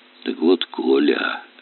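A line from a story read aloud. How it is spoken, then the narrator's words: Hoarse. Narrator (Russian): хрипло заговорил Аристарх Павлович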